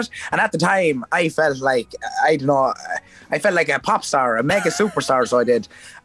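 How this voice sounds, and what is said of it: Regional accent, A sounds like O. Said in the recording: “people kept taking the mick out of my accent ... instead of the A's, it was O's, because that's the way I pronounce it”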